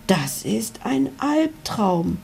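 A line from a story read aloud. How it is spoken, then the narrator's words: Whisper. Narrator (German): flüsterte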